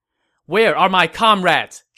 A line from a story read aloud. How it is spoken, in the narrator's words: Zhao Yun shouted